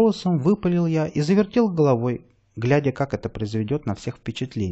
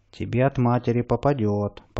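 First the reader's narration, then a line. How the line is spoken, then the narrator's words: Deep bass voice. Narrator (Russian): пробасила Зинаида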